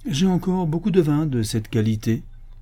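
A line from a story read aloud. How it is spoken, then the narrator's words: Cook speaking coldly. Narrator (French): dit froidement le cuisinier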